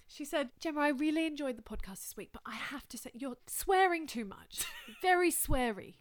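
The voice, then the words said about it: Put-on British accent. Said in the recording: “Do it in a British accent.”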